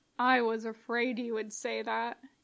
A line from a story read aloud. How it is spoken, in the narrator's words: Anakin grumbled